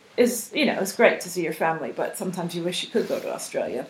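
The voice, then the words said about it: American accent. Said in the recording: “you probably can tell from my accent that I'm from America”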